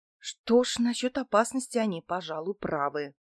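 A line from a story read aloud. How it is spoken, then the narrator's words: Whisper under breath. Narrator (Russian): прошептала я себе под нос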